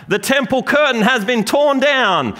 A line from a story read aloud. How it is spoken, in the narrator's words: out there you hear someone yell out